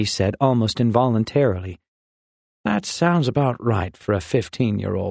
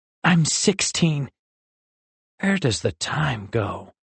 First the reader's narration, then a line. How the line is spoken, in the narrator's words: Rin sighed contently